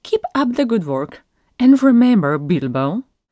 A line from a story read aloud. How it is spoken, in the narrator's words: she added sharply